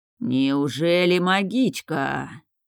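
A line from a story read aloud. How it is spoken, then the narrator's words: Regretful drawl, old sailor. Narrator (Russian): С сожалением протянул пожилой моряк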